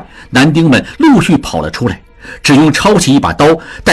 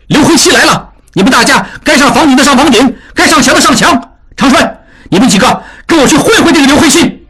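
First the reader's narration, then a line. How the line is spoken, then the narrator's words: Shout. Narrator (Chinese): 他 喊道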